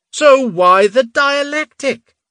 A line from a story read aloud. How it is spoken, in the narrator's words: Sir Logdin roared, heedless of the silence around them